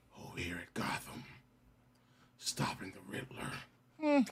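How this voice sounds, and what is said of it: Poor attempt at Batman voice. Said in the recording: “I got the best Batman voice, too. ... I give it about 2. Shit was trash.”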